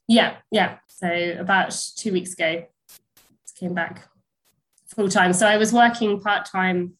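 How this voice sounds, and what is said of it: Snuffly, congested voice. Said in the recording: “I've got a cold, so if I sound a bit snuffly”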